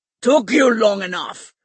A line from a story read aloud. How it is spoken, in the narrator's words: Stike grunted